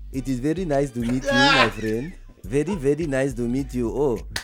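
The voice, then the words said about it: Put-on foreign accent. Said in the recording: “I have an accent, all kind of thing”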